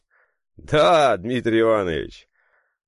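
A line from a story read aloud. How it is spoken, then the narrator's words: Relieved laughter. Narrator (Russian): Облегченно смеялся и Дмитрий Константинович Нижегородский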